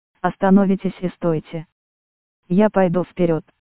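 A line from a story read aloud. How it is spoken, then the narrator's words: Commanding, stern woman. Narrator (Russian): моя спутница сказала повелительно, строго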